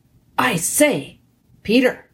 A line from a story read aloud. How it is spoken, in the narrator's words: whispered Edmund